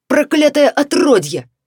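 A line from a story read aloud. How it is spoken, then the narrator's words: Barking shout. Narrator (Russian): рявкнул он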